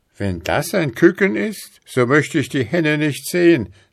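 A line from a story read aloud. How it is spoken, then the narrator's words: Frightened shout. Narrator (German): rief der Teufel erschrocken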